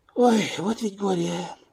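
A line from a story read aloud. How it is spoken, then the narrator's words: Sigh. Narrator (Russian): вздохнула Оксана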